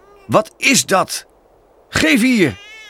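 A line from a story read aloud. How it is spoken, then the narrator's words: Calling out. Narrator (Dutch): riep hij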